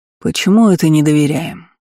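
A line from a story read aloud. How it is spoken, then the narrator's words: Calm. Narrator (Russian): спокойно ответил Айтер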